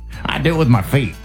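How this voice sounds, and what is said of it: Put-on Southern accent. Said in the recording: “I got a southern accent all of a sudden”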